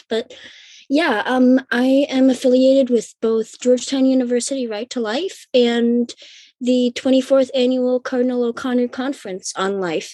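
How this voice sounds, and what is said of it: Weird-sounding, congested voice. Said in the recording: “My voice is very, very weird sounding. I'm getting over a little bit of a cold”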